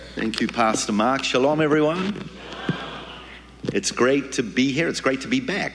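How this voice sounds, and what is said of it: New Zealand accent. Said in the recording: “originally I'm from New Zealand. You can tell my accent”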